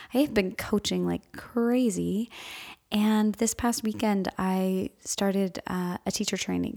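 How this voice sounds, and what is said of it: Tired, overused, slightly strained voice. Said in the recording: “You can probably hear in my voice that I'm a little bit underpowered... my voice has definitely been a little overused in the past couple of days”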